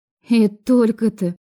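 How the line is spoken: Relieved exhale. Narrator (Russian): облегченно выдохнула я

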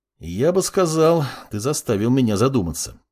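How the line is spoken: Young man speaking. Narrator (Russian): произнес парень

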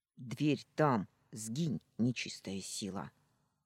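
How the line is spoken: Grumbled. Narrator (Russian): Буркнула

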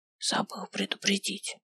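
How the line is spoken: Mage whispering in ear. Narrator (Russian): шепнул мне на ухо маг

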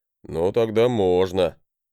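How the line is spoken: Wry snort. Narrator (Russian): хмыкнул он

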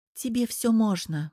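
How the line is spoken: Sigh. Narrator (Russian): вздохнула Оля

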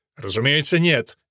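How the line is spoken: Curt angry retort. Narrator (Russian): сердито отрезал граф

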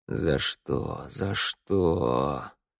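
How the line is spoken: Moaning. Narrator (Russian): Простонал

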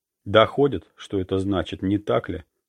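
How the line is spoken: Calm. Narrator (Russian): спокойно сказал

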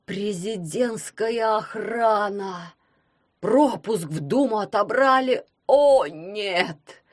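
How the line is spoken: Moaning. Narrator (Russian): простонал дядя Герман

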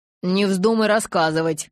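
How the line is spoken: Growling from below. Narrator (Russian): прорычал снизу Эммет

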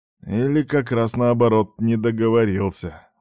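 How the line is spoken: Gloomy grumble. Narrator (Russian): мрачно буркнул морпех

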